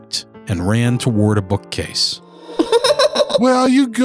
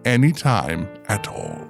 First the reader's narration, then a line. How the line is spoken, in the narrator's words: he whispered